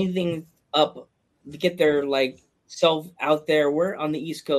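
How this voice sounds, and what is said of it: Usual voice. Nothing is said of it.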